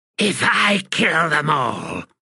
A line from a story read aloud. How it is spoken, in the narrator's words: she hissed